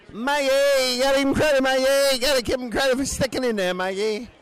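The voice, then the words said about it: Impression of Mad Dog radio host. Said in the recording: “I can't even do the voice ... Mike and the Mad Dog on the fan”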